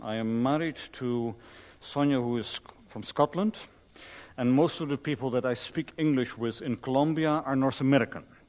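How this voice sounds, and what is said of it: Dutch accent in English. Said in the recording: “you don't really sound Anglo either ... I'm Dutch. That's where the accent comes from.”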